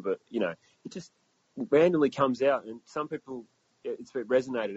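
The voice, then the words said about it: Blended English, American, South African accent. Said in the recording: “we have a weird blend of, like, English, American, South African, all just kind of blended into one, and it's just, here you go, here's an accent”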